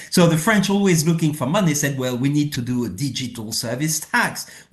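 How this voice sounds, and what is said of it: French accent. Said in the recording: “In spite of my French accent.”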